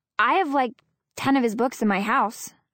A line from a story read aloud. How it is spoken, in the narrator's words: I blurt out, glad she's not going to stay mad